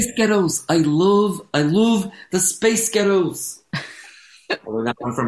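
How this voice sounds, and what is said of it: Usual voice. Nothing is said of it.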